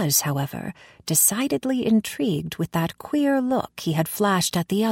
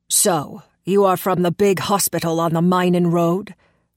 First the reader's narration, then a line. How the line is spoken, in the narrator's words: rumbled the red-haired man, as though I had committed some crime